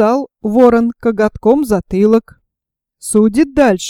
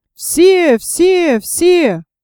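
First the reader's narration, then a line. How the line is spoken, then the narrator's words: Crowd shouting together. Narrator (Russian): закричали все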